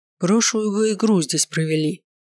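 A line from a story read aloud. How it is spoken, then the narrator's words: Coach grumbling. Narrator (Russian): проворчал тренер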